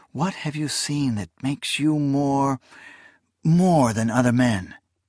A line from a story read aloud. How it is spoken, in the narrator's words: she sometimes purred